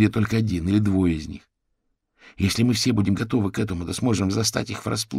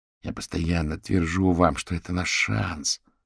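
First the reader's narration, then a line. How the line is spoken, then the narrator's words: Grumbled. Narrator (Russian): пробурчал Рэй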